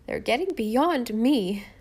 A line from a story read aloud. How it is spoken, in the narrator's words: sighed helplessly